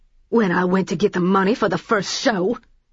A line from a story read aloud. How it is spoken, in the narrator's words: she growled